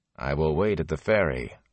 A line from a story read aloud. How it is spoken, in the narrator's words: Lan said flatly